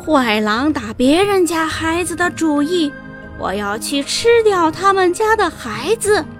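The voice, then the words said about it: Scary, menacing put-on voice. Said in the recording (Chinese): “装出很恐怖的声音”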